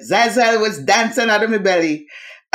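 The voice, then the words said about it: Imitated West Indian accent. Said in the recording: “in her West Indian accent”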